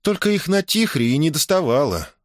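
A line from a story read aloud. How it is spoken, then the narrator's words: Sighing. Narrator (Russian): вздохнула Мона Сэния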